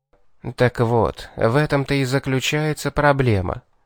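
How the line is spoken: Sighing. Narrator (Russian): вздохнул Унтарх

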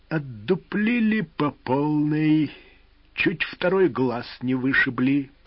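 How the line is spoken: Through gritted teeth. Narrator (Russian): процедил пират

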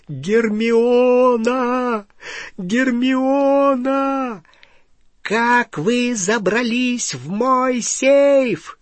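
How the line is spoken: Shrieking. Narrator (Russian): визжала Беллатриса

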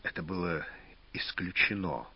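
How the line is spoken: Hoarse. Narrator (Russian): хрипло сказал Владимир

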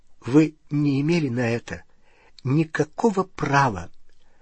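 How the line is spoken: Trembling voice. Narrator (Russian): она сказала дрогнувшим голосом

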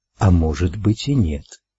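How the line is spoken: Whispered. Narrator (Russian): прошептал голос

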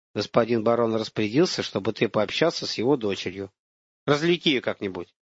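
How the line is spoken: Quiet soldier. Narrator (Russian): Солдат тихо сказал

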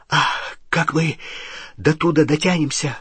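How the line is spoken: Breathed out. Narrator (Russian): выдохнул Рон

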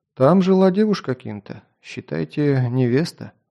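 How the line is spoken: Sad reply. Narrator (Russian): грустно ответил Тите

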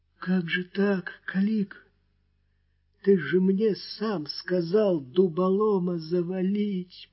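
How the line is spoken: Moaning through crushed lips. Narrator (Russian): простонал он, еле шевеля расплющенными губами

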